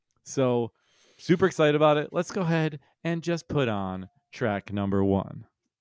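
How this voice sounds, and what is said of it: Radio announcer voice. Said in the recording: “Why did you say it like that? ... That's my radio voice.”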